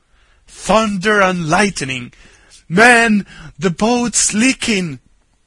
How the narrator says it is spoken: Ben Ali suddenly bellowed out

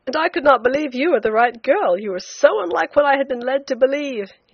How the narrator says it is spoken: he said with a laugh, in a burst of confidence

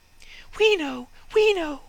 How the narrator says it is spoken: chirped the sparrows

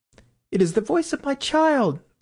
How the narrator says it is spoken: the White Queen cried out

